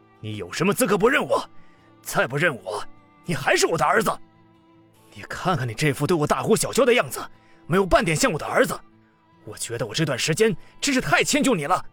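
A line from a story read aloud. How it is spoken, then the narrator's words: Angry. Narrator (Chinese): 这句话激怒了江振东，他道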